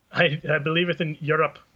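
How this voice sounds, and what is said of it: Poor imitation of an accent. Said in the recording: “Was that an Irish accent? ... I was trying to imitate your accent ... The accents are getting worse and worse.”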